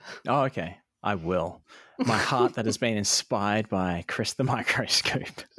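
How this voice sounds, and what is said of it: Usual voice. Nothing is said of it.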